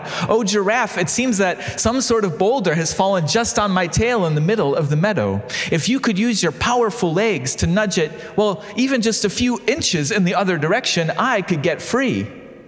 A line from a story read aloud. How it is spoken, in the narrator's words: called out